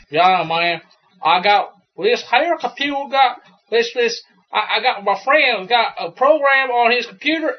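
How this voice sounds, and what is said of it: Imitated Baton Rouge Louisiana accent. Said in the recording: “He's from Louisiana, from Baton Rouge ... Southern accents ... people in Louisiana are not speaking English ... Baton Rouge people”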